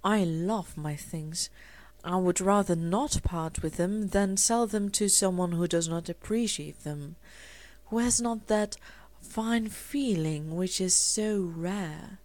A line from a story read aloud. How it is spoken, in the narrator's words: he would explain in his low, respectful tones